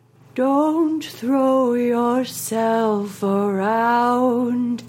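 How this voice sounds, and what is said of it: Imitates another person's singing voice. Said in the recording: “do you want to hear my impression? ... obviously I can't do it as good as her ... So this is from Volcano.”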